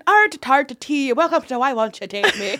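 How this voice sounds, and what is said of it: Put-on Irish accent. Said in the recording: “my Irish accent. ... That's really good.”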